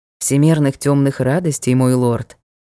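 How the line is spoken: Calm. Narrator (Russian): спокойно произнёс Джек

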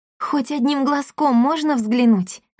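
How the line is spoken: Pleading. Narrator (Russian): взмолилась Дарина

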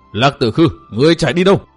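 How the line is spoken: Choked, furious echoing shout. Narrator (Vietnamese): Chàng uất hận đến nghẹn họng, hét vang cả núi rừng

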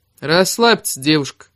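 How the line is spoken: Cold young man. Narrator (Russian): холодно произнес парень

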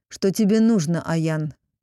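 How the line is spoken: Near growl. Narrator (Russian): почти прорычал хозяин

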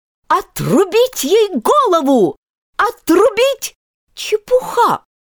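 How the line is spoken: Very loud and decisive. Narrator (Russian): сказала Алиса очень громко и решительно

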